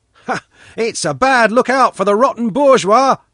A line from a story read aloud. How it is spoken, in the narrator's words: Pashka said loudly